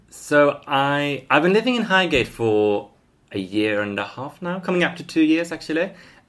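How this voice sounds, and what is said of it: Non-London accent, Swedish. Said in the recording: “Your accent isn't a Highgate one.”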